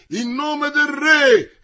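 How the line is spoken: Shouting. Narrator (Italian): gridava Comminges

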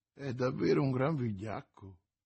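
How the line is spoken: Murmured. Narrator (Italian): mormorò l'oste

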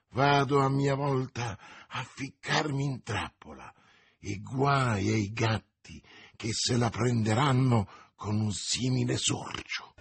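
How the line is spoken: Murmured. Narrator (Italian): mormorando

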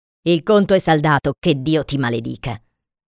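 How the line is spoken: Muttered. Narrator (Italian): Il meticcio borbottò

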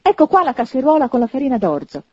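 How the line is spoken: Startled exclaiming. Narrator (Italian): esclamò, riscuotendosi

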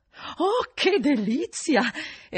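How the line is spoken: Woman exclaiming delightedly. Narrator (Italian): esclamò una delle donne

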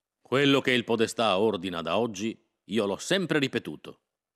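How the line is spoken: Plain. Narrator (Italian): disse Berardo

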